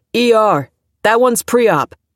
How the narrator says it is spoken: yelled

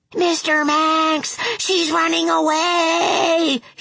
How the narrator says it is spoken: he screamed

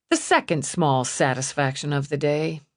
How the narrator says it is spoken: she murmured

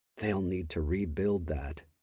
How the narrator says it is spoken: muttered bitterly to myself

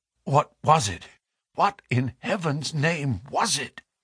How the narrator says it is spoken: he whispered

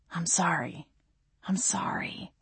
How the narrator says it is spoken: Gabriel whispered

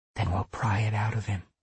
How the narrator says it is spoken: she whispered

